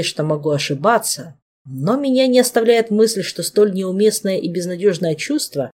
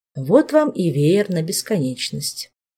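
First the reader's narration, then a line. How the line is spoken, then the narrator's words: Quiet remark. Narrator (Russian): тихонько заметил до сих пор молчавший Дэн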